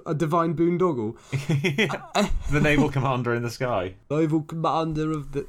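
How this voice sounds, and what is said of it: Imitates another person's voice. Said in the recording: “I don't know what sort of accent I was doing there. I was trying to do... Ringo Starr”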